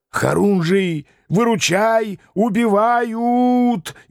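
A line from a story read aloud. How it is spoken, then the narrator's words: Hysterical yell. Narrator (Russian): истерично заорал Шлема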